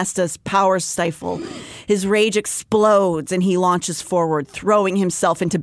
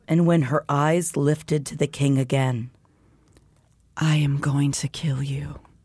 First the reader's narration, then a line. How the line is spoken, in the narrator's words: she said quietly